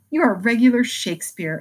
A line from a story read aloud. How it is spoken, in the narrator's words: exclaimed Beth, who firmly believed that her sisters were gifted with wonderful genius in all things